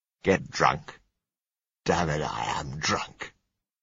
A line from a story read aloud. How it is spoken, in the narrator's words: he said scornfully